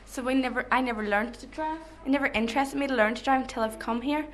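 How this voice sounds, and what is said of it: Irish accent. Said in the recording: “your lovely accent ... every backpacker that's come through this town and worked in this pub has been Irish”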